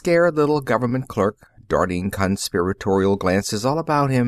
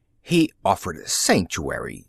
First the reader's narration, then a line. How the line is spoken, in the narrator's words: said the secretary indignantly